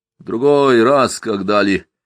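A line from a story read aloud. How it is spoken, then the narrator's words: Muffled, fearful refusal. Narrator (Russian): глухо отказался Яшка, побаиваясь остаться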